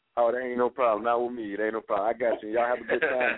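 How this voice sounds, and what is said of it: Speaks with a noticeable accent. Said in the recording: “I like your accent, too.”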